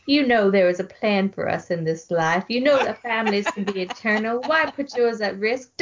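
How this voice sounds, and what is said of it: Mock preacher sermon voice. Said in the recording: “preacher voice ... that was impeccable ... I just need to do it in a preacher voice”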